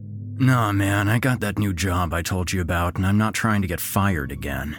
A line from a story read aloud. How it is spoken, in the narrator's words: Mike grumbled